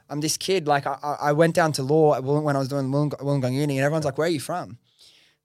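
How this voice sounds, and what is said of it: Western Sydney Australian accent. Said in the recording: “where's your accent from?... Like, are you like European? I'm like, nah, man, this is just Western Sydney.”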